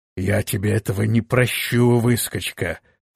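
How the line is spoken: Spoken through teeth. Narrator (Russian): процедил граф

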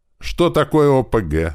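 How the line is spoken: Shout from the crowd. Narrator (Russian): выкрикнул кто-то из толпы

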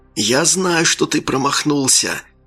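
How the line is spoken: Whispering. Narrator (Russian): зашептал он

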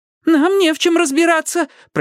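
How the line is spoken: Squeaky. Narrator (Russian): пропищал я

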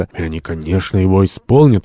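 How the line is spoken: Exclaimed. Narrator (Russian): воскликнул Томас Карлейль

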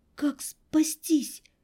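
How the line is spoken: Barely audible. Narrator (Russian): Еле слышно

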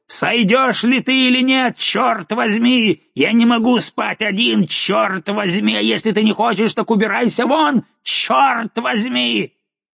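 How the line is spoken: Terrified shout from above. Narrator (Russian): крикнула сверху: полном испуге

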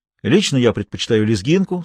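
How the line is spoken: Plain. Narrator (Russian): сказал Миша

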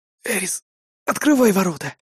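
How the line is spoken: Breathless exhale. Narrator (Russian): выдохнул я

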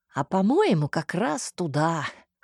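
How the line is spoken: Hmph. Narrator (Russian): хмыкнул Всеволод

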